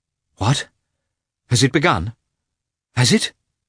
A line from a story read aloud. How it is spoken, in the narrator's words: he asked in a frightened voice